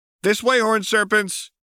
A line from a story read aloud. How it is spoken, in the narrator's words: Missy called out